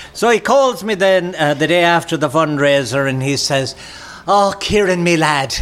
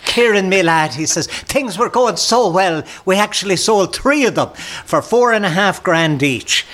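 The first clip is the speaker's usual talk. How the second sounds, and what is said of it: Put-on Irish accent. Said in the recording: “as he puts on a bit of an Irish accent.”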